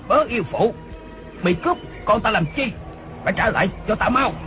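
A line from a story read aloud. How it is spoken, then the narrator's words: Sudden distant loud shout. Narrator (Vietnamese): Đột nhiên từ lưng chừng núi có tiếng người quát lớn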